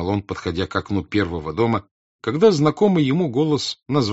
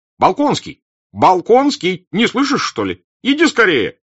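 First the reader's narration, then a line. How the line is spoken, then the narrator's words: Shouting. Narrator (Russian): кричал он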